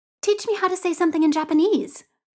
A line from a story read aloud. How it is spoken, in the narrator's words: Pichit says brightly